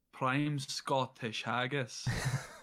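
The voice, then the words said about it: Put-on Scottish accent. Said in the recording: “Can you do a Scottish accent, though ... That's quite good.”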